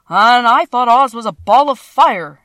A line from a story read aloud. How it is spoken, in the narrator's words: exclaimed the Lion